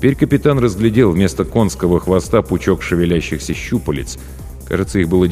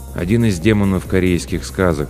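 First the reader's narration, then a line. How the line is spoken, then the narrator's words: Calm reply. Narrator (Russian): спокойно ответил Ким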